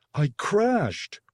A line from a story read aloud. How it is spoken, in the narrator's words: Rig shouted